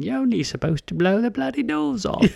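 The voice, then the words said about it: Michael Caine impression. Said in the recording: “Everybody quotes Michael Caine ... Pretty good imitation”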